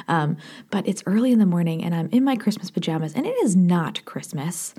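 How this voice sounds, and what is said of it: Soft whispered speech. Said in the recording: “I'm whispering. I'm sorry. I'm not meaning to whisper. It just comes naturally. If it's still dark out, I'm going to whisper.”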